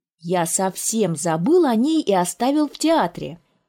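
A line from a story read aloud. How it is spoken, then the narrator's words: Exclaimed. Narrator (Russian): он воскликнул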